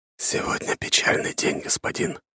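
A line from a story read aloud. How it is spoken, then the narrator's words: Barely audible. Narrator (Russian): едва слышно произнес Степан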